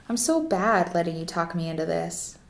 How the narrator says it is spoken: she said, hoping her voice sounded flirty and mocking in a fun way

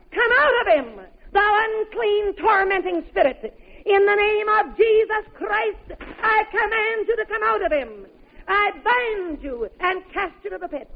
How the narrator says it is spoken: in a loud voice began to shout

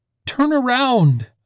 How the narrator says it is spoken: Vanna screamed

